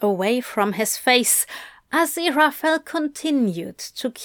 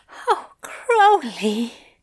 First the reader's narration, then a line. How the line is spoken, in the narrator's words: Aziraphale moaned